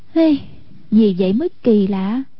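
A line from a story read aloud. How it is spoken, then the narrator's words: Smug, smiling, then sighing. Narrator (Vietnamese): Hoàng Dung vô cùng đắc ý, tươi cười như hoa, đột nhiên thở dài một tiếng nói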